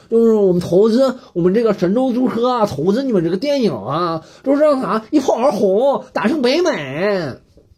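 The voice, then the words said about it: Put-on northeastern Chinese boss accent. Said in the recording (Chinese): “我也不知道我在学什么口音，但我就感觉投资方大佬就这样，或者个东北大哥”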